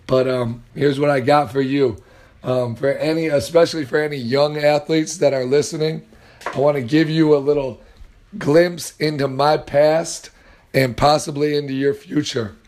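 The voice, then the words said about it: Strained, worn-out voice. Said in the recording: “I apologize for my voice. Was yelling tonight.”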